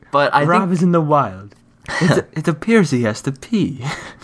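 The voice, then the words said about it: Put-on Australian accent narration. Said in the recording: “Can you do it with an Australian accent?”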